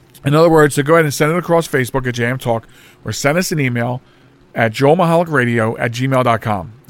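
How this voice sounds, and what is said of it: Hoarse, fading voice. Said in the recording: “I'm losing my voice very quickly”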